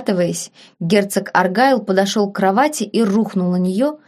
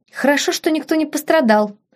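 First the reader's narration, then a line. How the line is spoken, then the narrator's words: Giggling. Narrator (Russian): хихикнула девушка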